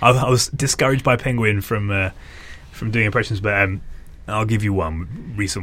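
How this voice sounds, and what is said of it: Usual voice. Nothing is said of it.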